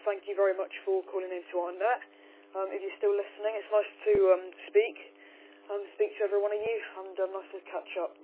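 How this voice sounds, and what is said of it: Voice strained from a cold. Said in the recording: “I need to rest up my voice a little bit ... I've got a bit of a cold, so hopefully I don't lose my voice ... I can tell it's getting a little bit worse”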